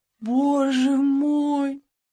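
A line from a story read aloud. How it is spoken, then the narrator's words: Moaned. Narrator (Russian): Он простонал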